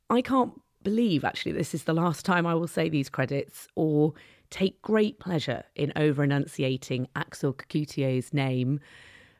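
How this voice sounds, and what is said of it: Hoarse, fading voice. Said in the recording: “my voice is starting to go thanks to the cold”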